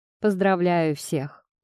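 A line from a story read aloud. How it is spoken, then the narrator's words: Solemn, smiling. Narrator (Russian): улыбаясь торжественно, начал он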